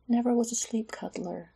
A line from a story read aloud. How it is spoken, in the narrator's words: she whispered, not to wake Garen